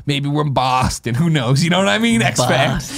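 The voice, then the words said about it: Put-on Boston accent. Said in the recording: “What kind of accent was that? ... Boston.”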